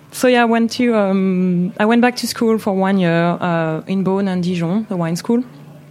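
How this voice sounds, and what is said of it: Speaks with a French accent. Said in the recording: “Not to lose my accent”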